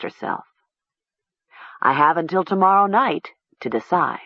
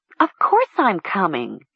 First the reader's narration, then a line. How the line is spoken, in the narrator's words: Talia exclaimed